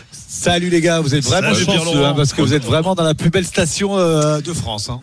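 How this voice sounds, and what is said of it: Southern French accent. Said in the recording (French): “cet accent de con, ça doit être du sud”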